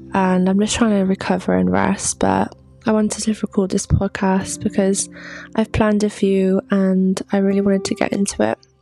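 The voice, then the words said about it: Sick, sore-throated voice. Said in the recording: “as you can probably tell by my voice, I don't sound too well ... sore throat and a general cold”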